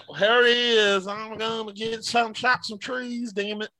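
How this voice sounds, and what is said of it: Put-on Southern accent. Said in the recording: “There's a southern accent.”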